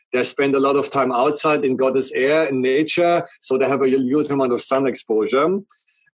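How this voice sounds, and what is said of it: Strong German accent. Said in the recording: “everybody recognized I have a very strong accent, so I'm German”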